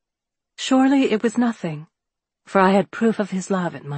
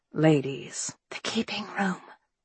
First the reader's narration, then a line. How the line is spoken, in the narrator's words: Angelica whispered